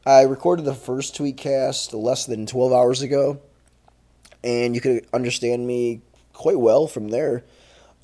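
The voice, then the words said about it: Changed, throaty congested voice. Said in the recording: “my voice is different ... I woke up this morning and a bunch of shit had drained into my throat”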